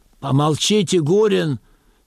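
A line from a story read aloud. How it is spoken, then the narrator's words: Plain. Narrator (Russian): сказал начальник лагеря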